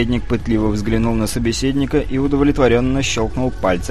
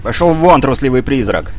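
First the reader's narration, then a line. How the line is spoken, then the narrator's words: Sudden bark, ruler. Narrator (Russian): неожиданно рявкнул правитель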